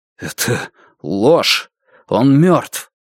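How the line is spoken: Strained, forced out. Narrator (Russian): Лун выдавил из себя

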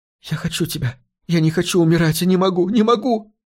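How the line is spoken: Sobbing. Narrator (Russian): рыдала Хелена

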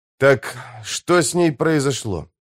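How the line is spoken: Irritated question. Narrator (Russian): спросил я раздраженно

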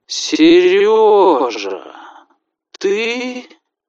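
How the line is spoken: Sleepy drawl. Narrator (Russian): Сонно протянул Иван Пантелеевич

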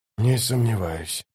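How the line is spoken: Whisper. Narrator (Russian): прошептал он

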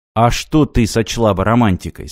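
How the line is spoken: Plain question. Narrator (Russian): спросил Мартин

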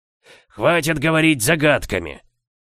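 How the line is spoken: Growling. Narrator (Russian): прорычал Сумариус

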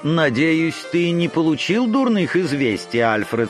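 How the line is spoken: Very polite question. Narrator (Russian): спросила она самым любезным тоном

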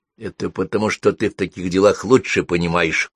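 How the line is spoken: Whispered. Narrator (Russian): шепнула она

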